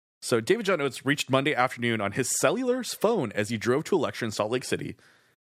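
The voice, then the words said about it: Polished radio announcer voice. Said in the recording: “Gonna clear my voice for, you know. ... Please, I need your perfect radio voice.”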